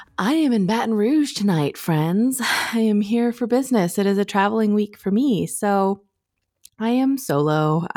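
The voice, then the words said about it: Deeper, sleepy-sounding voice. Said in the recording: “I'm pretty sleepy ... my voice is a little deeper and a little sexier than usual because I was just on the phone with my best friend”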